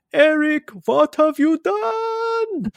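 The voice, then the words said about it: Count from Sesame Street, German-sounding. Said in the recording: “you did an impersonation of the Count from Sesame Street as well ... when I do the impression, she sounds more German.”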